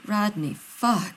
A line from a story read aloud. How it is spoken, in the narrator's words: John moans